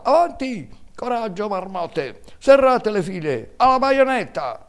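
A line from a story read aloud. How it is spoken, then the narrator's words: General shouting amid battle. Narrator (Italian): nel bollor della mischia si sentiva sempre la voce del generale che gridava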